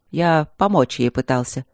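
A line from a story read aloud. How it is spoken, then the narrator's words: Dry. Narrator (Russian): сухо сказал Трот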